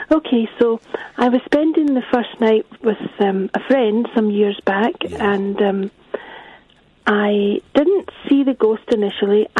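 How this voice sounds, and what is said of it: Scottish accent. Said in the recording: “Hasn't ... got a lovely voice? It's a Scottish accent. It's good, isn't it?”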